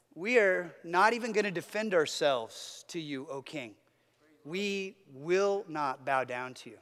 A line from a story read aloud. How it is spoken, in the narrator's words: they calmly say